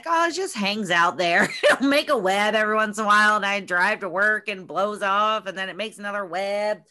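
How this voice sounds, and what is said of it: Put-on Southern Ohio accent. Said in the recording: “South Point, Ohio accent”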